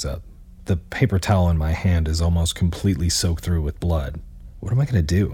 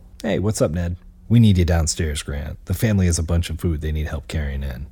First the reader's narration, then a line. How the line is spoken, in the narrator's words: say as calmly as possible